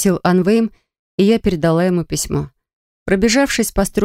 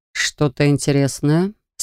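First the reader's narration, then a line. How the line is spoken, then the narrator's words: Deceptively calm. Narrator (Russian): спросил он обманчиво спокойным тоном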